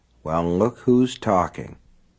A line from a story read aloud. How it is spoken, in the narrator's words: Lester Pratt muttered